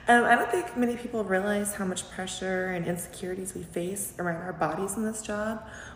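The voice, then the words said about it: Hoarse, fading voice. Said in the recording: “I'm still losing my voice.”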